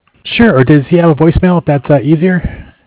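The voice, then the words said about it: Hoarse, fading voice. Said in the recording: “I'm losing my voice here”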